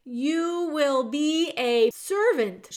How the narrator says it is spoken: shouted the soldier

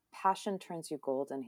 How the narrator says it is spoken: he whispered

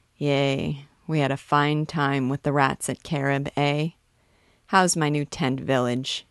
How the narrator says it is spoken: he chuckled, but his voice was weak

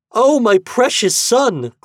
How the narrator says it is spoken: cried Daphne

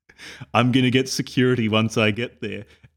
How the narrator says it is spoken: April says sternly

